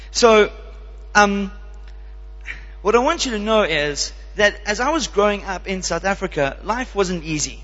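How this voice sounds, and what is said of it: South African accent with American twang. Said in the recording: “I'm a South African, even though I have a bit of an American twang in my language... I kind of got this accent.”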